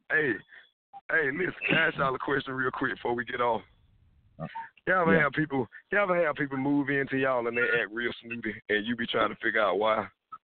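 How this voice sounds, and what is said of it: Voice sounds off from a cold. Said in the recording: “I think my son or my daughter then gave me a cold, so that's why I sound weird.”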